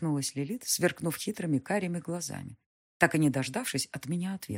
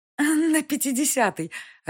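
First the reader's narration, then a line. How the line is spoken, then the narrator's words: Hearty amused laughter. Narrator (Russian): расхохоталась, умилившись моему ужасу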